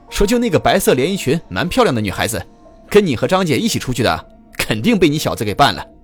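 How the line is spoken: Loud laughter. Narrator (Chinese): 门卫这时大笑着说

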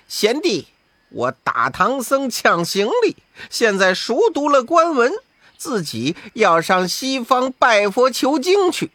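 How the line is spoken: Cold laugh. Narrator (Chinese): 悟空呵呵冷笑

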